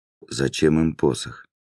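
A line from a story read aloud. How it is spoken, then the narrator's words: Plain question. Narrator (Russian): спросил Льё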